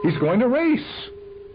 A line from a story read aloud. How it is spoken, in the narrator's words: someone screamed